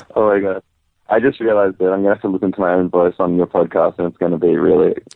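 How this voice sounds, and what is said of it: Australian accent that sounds British. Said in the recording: “your accent. It sounds good, but it does not sound Australian. It sounds British... you sound English”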